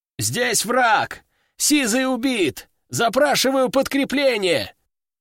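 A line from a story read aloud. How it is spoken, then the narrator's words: Shouted over radio. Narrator (Russian): прокричал кто-то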